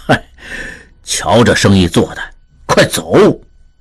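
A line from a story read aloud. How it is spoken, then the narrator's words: Sighing. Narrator (Chinese): 李德龄叹道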